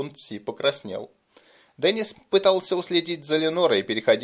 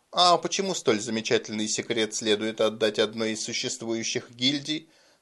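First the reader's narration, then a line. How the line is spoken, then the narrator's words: Laughing interjection. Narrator (Russian): Рассмеявшись, вмешался барон Кремер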